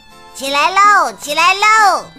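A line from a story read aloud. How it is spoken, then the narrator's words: Loud squawking parrot. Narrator (Chinese): 鹦鹉大叫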